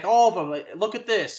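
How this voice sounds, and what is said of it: Put-on New York accent. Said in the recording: “with the New York accent”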